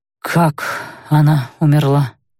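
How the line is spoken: Muffled, as if through door. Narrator (Russian): Голос прозвучал глухо, будто говорили с той стороны автоматической двери

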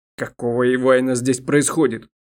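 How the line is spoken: Angry, bewildered growl. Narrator (Russian): Злой, вместе с тем непонимающе, прорычал последний представитель рода Эвинт

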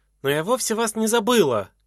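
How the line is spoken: Woman shouting. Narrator (Russian): крикнула она

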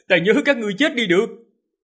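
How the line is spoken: Laughing shout. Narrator (Vietnamese): Hắn cười lớn, hét lên

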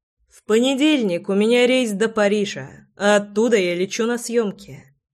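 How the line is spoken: Calm. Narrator (Russian): спокойно сообщил я

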